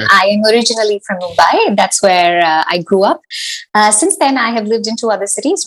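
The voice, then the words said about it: Indian English accent. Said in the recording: “I notice from your accent”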